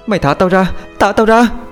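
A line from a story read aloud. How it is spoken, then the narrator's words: Young woman screaming repeatedly. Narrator (Vietnamese): cô gái liên tục gào thét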